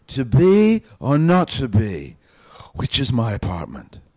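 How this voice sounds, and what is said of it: Drunken Shakespeare impression. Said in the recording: “my Shakespeare impression ... Shakespeare coming home late at night drunk”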